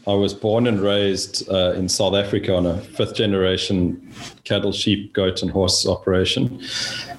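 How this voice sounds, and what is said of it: Non-Texan, South African-sounding accent. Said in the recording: “this is not a Texas accent.”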